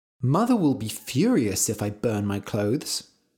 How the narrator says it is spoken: said Red

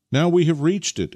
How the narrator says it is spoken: exclaimed Nikita

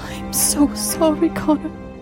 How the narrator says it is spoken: whimpered

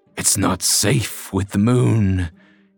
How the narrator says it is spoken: growled

